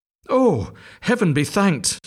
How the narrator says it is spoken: sighed the duckling

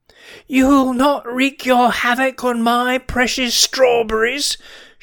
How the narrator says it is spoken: shrieked Mrs

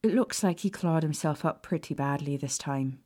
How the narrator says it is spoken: Madame Pomfrey sighed

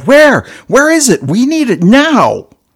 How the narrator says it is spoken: they all yelled

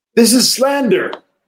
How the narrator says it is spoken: Bishop Dmitri cried out heatedly

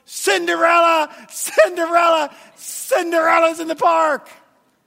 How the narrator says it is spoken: The little girl is screaming and yelling

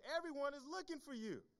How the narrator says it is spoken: they exclaimed

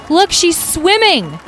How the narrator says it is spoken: Someone from the crowd shouted

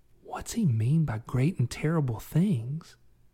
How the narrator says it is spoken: Katana glanced at Calvin and whispered

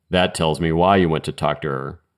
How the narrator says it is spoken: said in a bored tone

